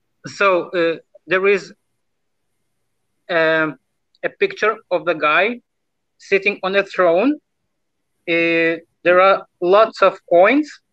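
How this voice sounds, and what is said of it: Russian accent. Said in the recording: “I'm speaking with a Russian accent”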